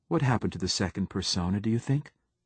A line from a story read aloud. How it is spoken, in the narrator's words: asked Braun